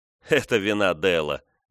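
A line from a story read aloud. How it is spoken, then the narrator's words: Laughing. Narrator (Russian): засмеялся Венс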